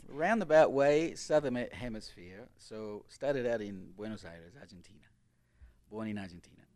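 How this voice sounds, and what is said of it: Australian/New Zealand accent, slightly Spanish. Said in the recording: “you're from New Zealand or Australia? ... your accent is, you know, an in-between and... Also a bit Spanish as well”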